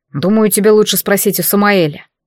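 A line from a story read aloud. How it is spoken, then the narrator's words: Cold reply. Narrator (Russian): холодно откликнулся Дарий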